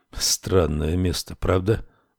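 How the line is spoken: Quiet. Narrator (Russian): тихо сказал Рекс

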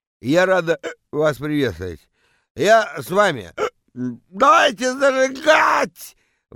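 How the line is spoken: Yelling into a microphone. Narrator (Russian): Вопит она в микрофон

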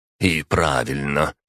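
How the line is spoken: Grumbling. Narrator (Russian): пробурчал на это Сандоната

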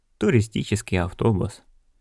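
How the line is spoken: Sighing. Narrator (Russian): вздохнула Сулис

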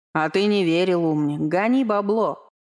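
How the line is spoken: Chuckling. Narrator (Russian): хохотнул Вейха

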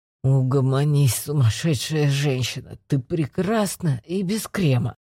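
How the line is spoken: Grumbling. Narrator (Russian): проворчал Макс

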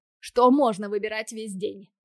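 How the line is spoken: Grumbling. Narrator (Russian): Продолжает ворчать

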